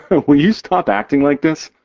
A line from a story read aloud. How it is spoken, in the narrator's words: He laughs